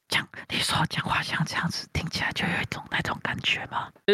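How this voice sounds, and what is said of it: ASMR-style soft whisper, wet mouth sounds. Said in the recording (Chinese): “就是他讲话那个口水音会特别重，然后会特别小声、特别轻的跟你讲”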